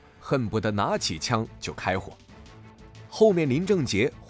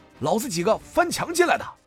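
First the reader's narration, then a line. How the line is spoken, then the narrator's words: Shout. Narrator (Chinese): 向风吼道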